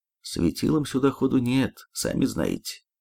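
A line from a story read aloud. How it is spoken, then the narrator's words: Muttering. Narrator (Russian): буркнул я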